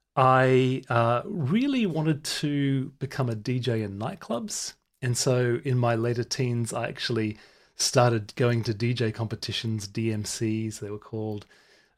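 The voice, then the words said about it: English accent. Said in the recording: “I've got English parents. I've got an English accent, even though I was born in Brisbane.”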